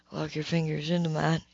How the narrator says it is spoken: whispered

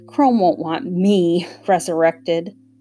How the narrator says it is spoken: Hester snorted

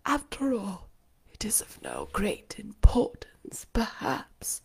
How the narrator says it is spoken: she murmured to herself

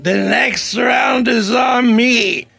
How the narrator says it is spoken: exclaiming

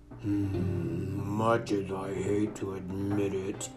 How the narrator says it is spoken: rumbled

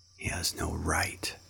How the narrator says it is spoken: whispered Bagheera

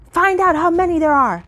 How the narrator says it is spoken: barked the skipper

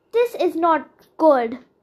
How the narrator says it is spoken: moaned

